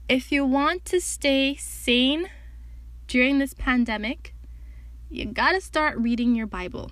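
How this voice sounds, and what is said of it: Serious tone of voice. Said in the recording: “put on my serious voice”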